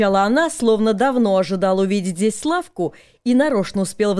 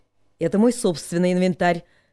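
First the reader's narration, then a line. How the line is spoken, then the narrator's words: Loud explaining. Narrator (Russian): Также не тихо попытался объяснить ей ее ошибку Славка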